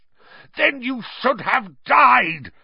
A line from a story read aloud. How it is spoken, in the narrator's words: roared Black